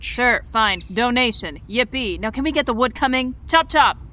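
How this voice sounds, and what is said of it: Strong French-German accent. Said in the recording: “very prominent French-German dialect”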